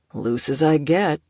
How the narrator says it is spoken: Sato grunted

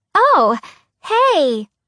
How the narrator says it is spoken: Pipsqueak said happily

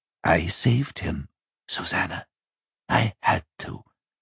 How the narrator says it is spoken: he whispered

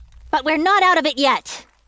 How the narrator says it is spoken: shouted Kira

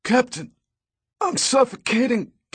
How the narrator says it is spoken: gasped the man

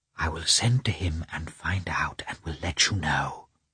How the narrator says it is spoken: Betsy whispered to her

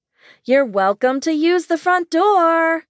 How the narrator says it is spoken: Mom shouted

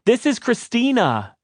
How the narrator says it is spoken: the assistant screamed

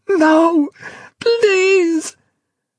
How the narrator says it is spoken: plead, shriek

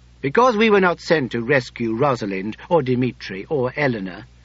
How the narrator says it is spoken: Nicholas replied angrily

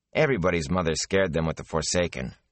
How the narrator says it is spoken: Rand said dryly

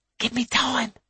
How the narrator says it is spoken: she hisses to him

